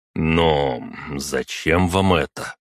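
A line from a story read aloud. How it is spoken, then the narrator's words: Forced, feigned confusion. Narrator (Russian): выдавил я, стараясь выглядеть растерянным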